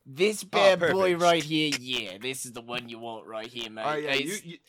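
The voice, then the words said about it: Put-on Australian accent. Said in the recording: “this is an incredible accent you have ... my Australian friend”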